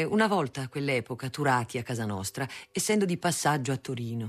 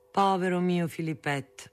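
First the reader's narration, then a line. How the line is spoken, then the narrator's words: Sighing speech. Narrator (Italian): mia madre, sospirava e diceva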